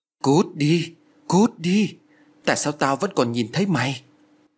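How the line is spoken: Trembling, screaming. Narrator (Vietnamese): Lan ôm đầu run rẩy miệng la lớn

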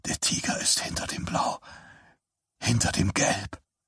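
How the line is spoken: Strained murmur. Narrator (German): murmelte Johnny gepresst

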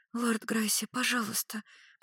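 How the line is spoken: Whispered, young woman. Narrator (Russian): прошептала студентка

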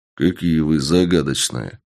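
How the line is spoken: Mutter. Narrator (Russian): пробормотал я

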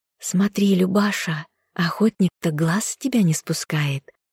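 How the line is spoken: Whispering in ear. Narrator (Russian): Весняна зашептала на ухо подруге

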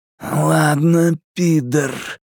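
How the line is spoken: Growled. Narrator (Russian): прорычал Генри

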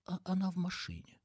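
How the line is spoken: Booming, then very quiet. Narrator (Russian): Начала было Лу, но, заметив, что он вздрогнул от грома ее голоса, добавила очень тихо

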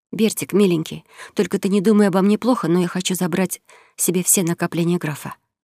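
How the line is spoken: Woman whispering. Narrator (Russian): прошептала подруга

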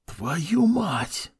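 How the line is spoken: Whisper. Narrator (Russian): прошептал Юринай

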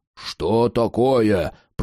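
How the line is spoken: Growl. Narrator (Russian): прорычал Карл

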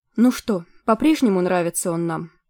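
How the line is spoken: Gloomy question. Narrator (Russian): мрачно спросила Киридвен у Мордвит

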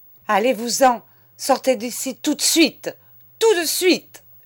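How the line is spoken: Woman screaming. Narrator (French): hurlait madame

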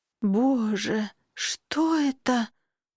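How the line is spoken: Terrified rasp. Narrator (Russian): в ужасе прохрипела я

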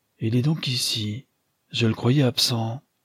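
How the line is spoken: Captain murmuring. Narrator (French): murmura le capitaine Aralan

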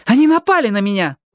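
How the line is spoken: Exclaimed. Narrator (Russian): воскликнула Алли

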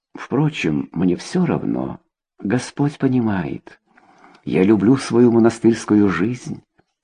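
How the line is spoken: Quiet. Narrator (Russian): тихо сказала

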